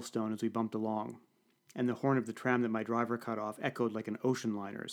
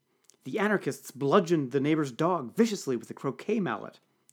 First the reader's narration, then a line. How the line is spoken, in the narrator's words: exclaimed Bertrand